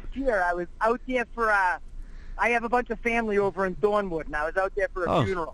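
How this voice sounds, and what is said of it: Regional local accent. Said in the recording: “With that fucking accent.”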